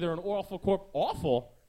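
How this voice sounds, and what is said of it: Old-fashioned New Jersey accent. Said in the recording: “It's Jersey accents. ... Jersey from the 40s”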